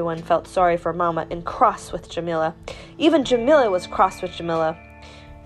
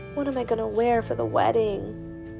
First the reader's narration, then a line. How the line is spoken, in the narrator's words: said sadly